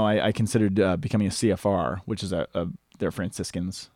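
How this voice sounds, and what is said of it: Usual voice. Nothing is said of it.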